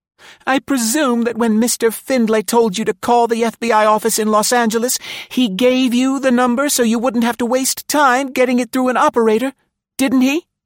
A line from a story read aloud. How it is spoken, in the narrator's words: Jane Marlowe said desperately